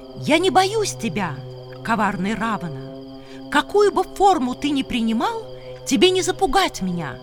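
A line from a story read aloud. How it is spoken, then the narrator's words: Shouting. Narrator (Russian): Сита крикнула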